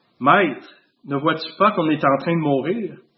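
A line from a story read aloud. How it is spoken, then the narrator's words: Firm voice. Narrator (French): Jésus parle d'une voix ferme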